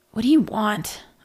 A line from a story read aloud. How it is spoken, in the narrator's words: rasped